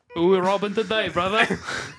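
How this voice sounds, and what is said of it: Cartoon character voice, Wallace-like. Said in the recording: “my Ferb impersonation is like a cursed Wallace right. And Gromit.”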